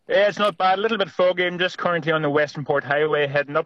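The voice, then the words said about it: Australian accent. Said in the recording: “Love your accent.”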